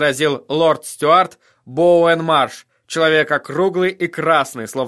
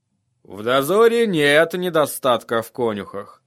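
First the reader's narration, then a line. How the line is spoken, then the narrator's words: Muttered. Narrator (Russian): пробормотал лорд Мормонт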